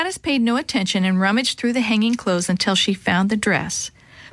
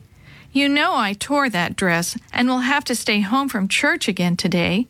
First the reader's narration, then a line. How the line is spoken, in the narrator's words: Lottie said sadly